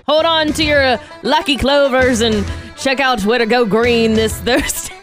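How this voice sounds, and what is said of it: Poor put-on Irish accent. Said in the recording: “Terrible Irish accent. ... It's not bad.”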